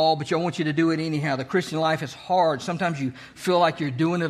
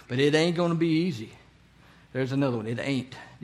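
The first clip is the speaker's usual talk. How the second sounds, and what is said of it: Put-on Southern drawl. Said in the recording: “A little southern drawl there.”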